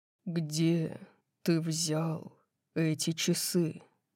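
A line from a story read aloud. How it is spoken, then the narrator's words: Slow question. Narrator (Russian): медленно спросил Дариус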